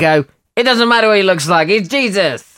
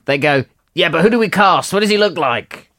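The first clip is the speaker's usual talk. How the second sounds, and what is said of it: Imitates another person's voice. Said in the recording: “my Harvey Weinstein impersonation ... it was a good one”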